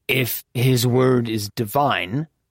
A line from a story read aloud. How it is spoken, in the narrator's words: Achille grumbled